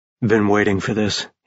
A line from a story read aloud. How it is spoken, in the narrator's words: he murmured